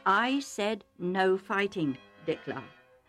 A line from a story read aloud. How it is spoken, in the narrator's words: Isaac said calmly but firmly